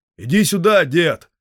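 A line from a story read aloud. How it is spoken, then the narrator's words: Shout. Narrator (Russian): Один из них крикнул деду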